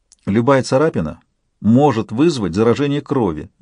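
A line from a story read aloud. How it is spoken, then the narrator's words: Lecturing tone. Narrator (Russian): менторским тоном проговорила Альба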